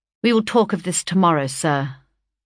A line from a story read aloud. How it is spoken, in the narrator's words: said my aunt coldly